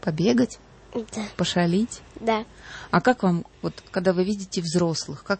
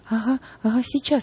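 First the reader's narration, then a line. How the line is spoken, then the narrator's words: Frightened boy. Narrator (Russian): испуганно сказал мальчик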